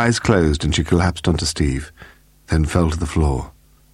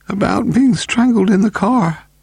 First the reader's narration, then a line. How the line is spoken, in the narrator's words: gasped